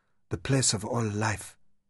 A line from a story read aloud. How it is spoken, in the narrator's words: she whispered, entranced by the weird beauty